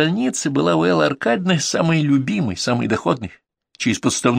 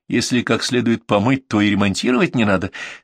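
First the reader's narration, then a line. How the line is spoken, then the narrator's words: Laughing. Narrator (Russian): смеялась Лисичкина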